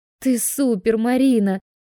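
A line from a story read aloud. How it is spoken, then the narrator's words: Joyful squeal. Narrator (Russian): Лаура с радостным визгом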